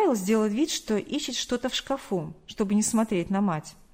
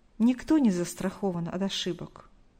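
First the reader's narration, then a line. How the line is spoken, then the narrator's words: Sighing. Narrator (Russian): вздохнула Галина Николаевна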